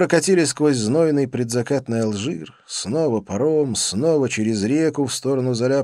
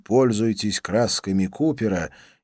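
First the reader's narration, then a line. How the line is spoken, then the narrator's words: Plain. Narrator (Russian): сказал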